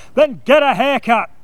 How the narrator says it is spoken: loudly whined

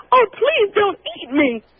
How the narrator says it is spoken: cried

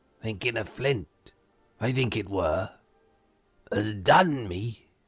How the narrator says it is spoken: growled Morgan

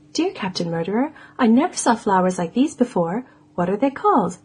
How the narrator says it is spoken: he answered

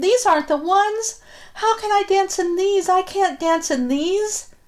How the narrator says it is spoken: cried

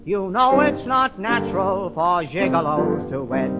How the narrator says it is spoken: The mayor was angry and loudly he said

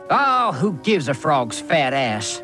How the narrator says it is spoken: He snarled at his own brother

